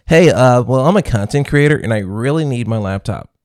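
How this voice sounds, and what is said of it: Put-on content creator voice. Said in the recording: “put on my content creator voice.”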